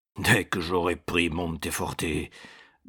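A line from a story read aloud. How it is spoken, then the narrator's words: Growling. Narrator (French): gronda César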